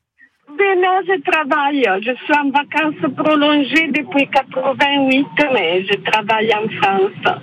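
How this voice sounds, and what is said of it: Striking voice with a noticeable accent. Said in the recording (French): “Mais quelle voix d'une... Mais extraordinaire... J'adore votre accent.”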